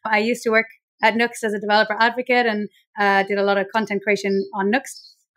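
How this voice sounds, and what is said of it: Irish accent. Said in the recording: “I'm Irish, as you can probably tell by my accent”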